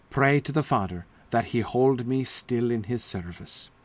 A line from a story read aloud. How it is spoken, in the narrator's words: sighed Sir Launcelot